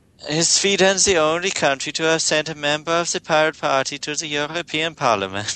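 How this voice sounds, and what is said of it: Attempted Swedish accent. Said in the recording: “Swedish accent ... Swedish accent's the one I can't do ... I can't do it.”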